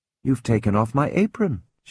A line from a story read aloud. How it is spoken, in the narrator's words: said gently